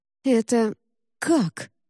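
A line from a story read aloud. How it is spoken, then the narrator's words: Stammering, forced out. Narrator (Russian): заикаясь, выдавил Ржаник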